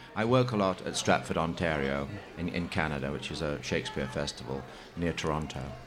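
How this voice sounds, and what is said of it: Noticeable non-American accent. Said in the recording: “in spite of my accent”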